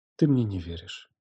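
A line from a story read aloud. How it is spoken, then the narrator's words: Quiet statement. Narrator (Russian): тихо констатировала она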